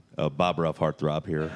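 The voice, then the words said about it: Deliberate radio announcer voice. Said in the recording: “switch into the... You just switched into your studio voice ... That was my radio voice.”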